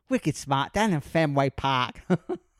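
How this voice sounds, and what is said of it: Attempted Boston accent. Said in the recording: “You doing an accent, trying to do a Boston accent sounds like John Travolta in Grease”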